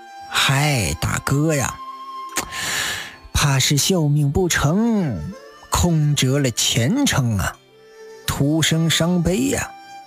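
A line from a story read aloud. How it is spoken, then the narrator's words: Sighing. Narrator (Chinese): 侯军叹道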